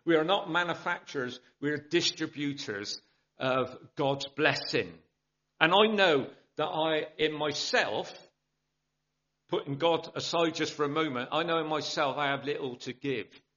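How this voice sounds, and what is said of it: South Bristol English accent. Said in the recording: “my accent, South Bristol”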